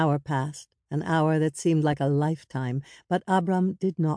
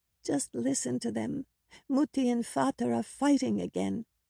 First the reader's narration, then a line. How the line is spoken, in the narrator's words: Anka whispered in a frightened voice